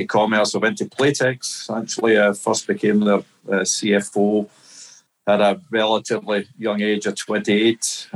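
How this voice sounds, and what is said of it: Strong Glasgow Scottish accent. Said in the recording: “my accent, I think it's still a strong Glasgow accent”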